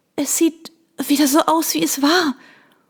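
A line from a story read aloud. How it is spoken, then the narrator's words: Panting. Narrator (German): keuchte ich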